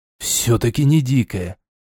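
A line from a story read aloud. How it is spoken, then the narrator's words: Relieved exhale. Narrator (Russian): с облегчением выдохнул эльф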